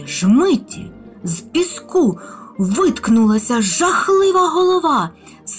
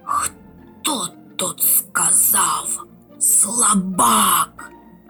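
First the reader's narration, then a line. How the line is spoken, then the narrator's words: Hissing creature. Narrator (Ukrainian): засичав мурашинний лев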